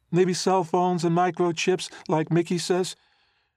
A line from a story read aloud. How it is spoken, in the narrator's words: She squeaked her voice like the mouse in the cartoon